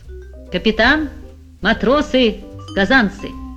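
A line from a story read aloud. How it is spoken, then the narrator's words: Solemn announcement. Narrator (Russian): пан Клякса торжественно произнес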